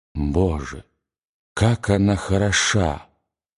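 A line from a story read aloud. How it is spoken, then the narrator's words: Trembling, excited whisper. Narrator (Russian): И он задрожал в одном из тех порывов волнения, которые заставляют мужчину забыть обо всем, и, обращаясь к графине, прошептал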